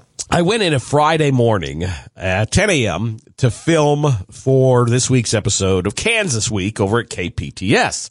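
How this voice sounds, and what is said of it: Raspy, hoarse voice. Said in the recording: “my coffee voice, my raspy voice”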